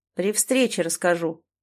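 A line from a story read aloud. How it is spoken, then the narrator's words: Snorted. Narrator (Russian): хмыкнул Земцов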